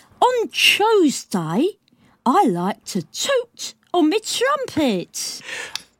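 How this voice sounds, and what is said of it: Clumsy Cockney accent with lisp. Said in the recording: “everything's forward, I've got my Cockney accent, my lispies ... That's bad ... that was awful”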